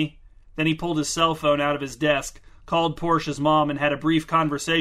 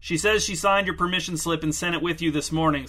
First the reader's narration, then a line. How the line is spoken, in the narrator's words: said Mr